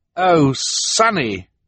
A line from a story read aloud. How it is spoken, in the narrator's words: Klaus cried